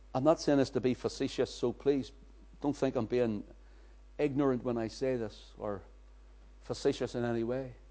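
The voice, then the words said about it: Strong non-American English accent. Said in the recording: “so as our American friends can understand my accent”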